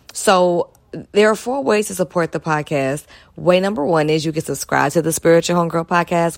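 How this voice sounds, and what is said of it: Slightly strained, hoarse voice. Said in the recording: “my voice is a little off. I was kicking it with my family and just yelling”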